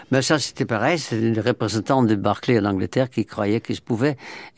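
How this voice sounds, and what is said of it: Dutch accent speaking French. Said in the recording (French): “j'ai sûrement un accent. J'ai même un accent en français, malgré que je suis là depuis plus de 50 ans, bientôt 60, et que j'ai même un accent hollandais”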